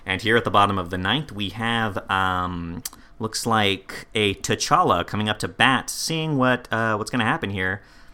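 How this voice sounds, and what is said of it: Martin Freeman as baseball announcer. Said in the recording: “there is like a baseball announcer cadence to his speech, where at any moment I expected Martin Freeman to just look at the camera and go”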